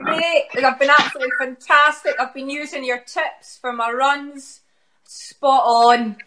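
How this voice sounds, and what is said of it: Strong Glaswegian accent. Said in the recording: “quite a strong Glaswegian accent”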